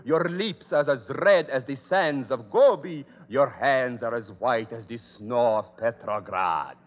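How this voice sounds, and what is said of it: Exaggerated foreign accent, misplaced stress. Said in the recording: “a cook's tour with a dialect ... I speak with an accent ... Every word he pronounces, he puts the emphasis on the wrong syllable.”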